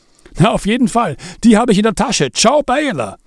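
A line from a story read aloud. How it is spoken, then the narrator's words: Calling while leaving. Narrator (German): rief Zachi im Weggehen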